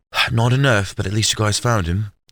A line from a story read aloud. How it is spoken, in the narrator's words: Charisse sighed